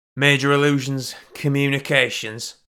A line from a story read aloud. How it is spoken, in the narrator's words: grunted Sherman